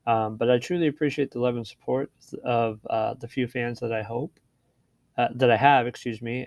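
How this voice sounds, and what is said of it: Hoarse, fading voice. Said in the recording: “As you can tell, I'm losing my voice”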